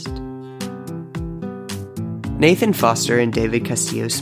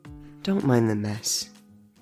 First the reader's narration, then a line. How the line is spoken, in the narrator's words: David purred